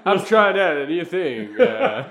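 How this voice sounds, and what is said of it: Mock drawling movie-star radio voice. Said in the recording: “sounded like you're trying to do John Wayne meets ... That accent was almost like Wayne meets Christopher Walken. John Wayne meets Christopher Walken ... With a little bit of Shatner thrown in with the pause in the air ... That's my radio voice.”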